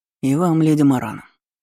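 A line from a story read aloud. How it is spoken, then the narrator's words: Responding hmph. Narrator (Russian): хмыкнул в ответ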